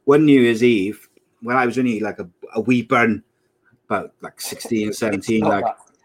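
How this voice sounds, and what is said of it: Put-on Scottish accent. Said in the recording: “doing the Scottish accent”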